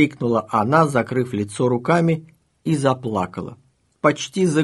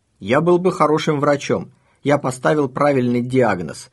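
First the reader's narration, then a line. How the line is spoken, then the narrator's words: Triumphant exclamation. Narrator (Russian): торжествующе воскликнул Борис Львович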